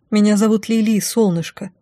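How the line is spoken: Desperate whisper. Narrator (Russian): Прошептала с отчаянием, понимая, что ничем не могу ей помочь

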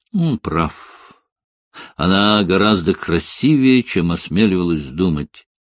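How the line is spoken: Laughing, to herself. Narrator (Russian): Смеясь, говорит себе

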